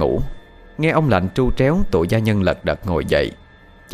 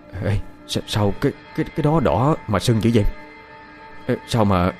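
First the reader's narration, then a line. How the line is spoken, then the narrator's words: Frightened stammering. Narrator (Vietnamese): thằng Đinh gia nhân nó tái mặt ... giọng lắp bắp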